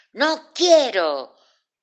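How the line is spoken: Shouted very furiously. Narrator (Spanish): gritó muy, pero muy furioso

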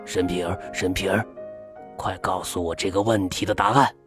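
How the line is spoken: Soft chanting. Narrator (Chinese): 阿吉轻声念着

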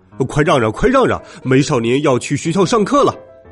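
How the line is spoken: Crowd shouting loudly. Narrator (Chinese): 许多人……大声嚷嚷

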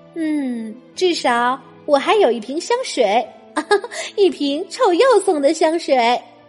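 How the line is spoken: Thoughtful, smiling. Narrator (Chinese): 米莉想了想，微微一笑，说

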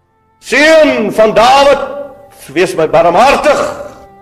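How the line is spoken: Blind man crying out. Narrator (Afrikaans): het die blinde toe maar net hoor uitgeroep

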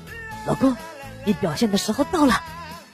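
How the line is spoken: Low voice. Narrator (Chinese): 老婆低声说

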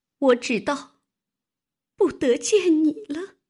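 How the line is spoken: Choked, overwhelmed with emotion. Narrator (Chinese): 又惊又喜，又悲又痛 哽咽了半日，方说道

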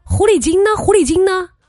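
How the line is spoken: Woman shouting. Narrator (Chinese): 一个女的对着店门口冲你喊

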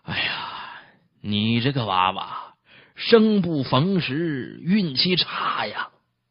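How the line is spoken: Sighing. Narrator (Chinese): 父亲叹息

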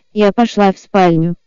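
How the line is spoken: Calm statement. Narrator (Russian): спокойно заявила я

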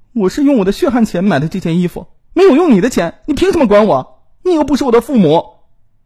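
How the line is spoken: Exasperated shouting. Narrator (Chinese): 柳燕终于是忍不住了，对姨父大喊

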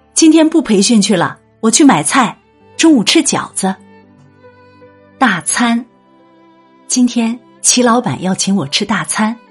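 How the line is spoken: Warmly calling out. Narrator (Chinese): 女人心头一热，喊着

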